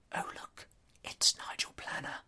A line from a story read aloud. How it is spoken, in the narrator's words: I heard myself whisper